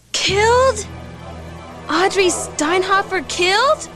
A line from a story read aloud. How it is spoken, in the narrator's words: She gasped in disbelief